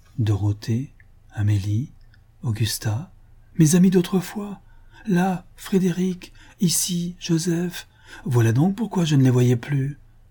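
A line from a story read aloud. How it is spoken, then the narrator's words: Exclaimed. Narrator (French): s'écria-t-elle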